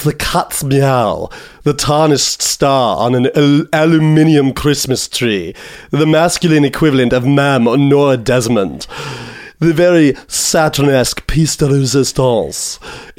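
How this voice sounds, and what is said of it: Impression of a character's voice. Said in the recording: “he's got this very unique. I'm gonna try to do an impression.”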